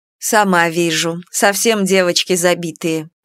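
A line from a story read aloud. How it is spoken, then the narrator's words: Grumbled. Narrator (Russian): проворчала Нара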